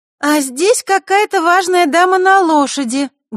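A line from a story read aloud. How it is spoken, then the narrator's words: Loud announcement. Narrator (Russian): громко объявила она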